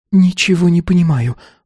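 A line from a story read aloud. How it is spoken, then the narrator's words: Disbelieving babble. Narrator (Russian): пролепетала, чувствуя неверие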